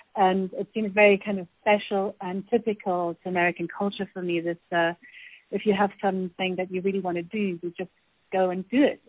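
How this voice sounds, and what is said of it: Non-American accent. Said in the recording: “you can hear from my accent that I'm not American”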